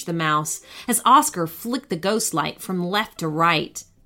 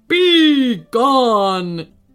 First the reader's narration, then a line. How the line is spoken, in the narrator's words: roared, angry shout turn to a terrible moan